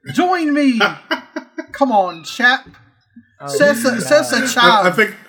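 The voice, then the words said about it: Put-on British accent. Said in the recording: “I know you have a British accent in you.”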